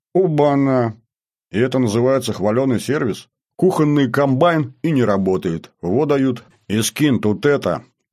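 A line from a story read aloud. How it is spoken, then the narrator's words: Displeased grumble. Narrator (Russian): проворчал недовольный я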